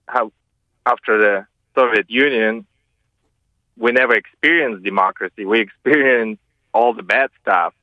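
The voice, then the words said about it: Russian accent with Southern American tinge. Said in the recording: “you've got a lovely southern accent there over what sounds like a Russian accent.”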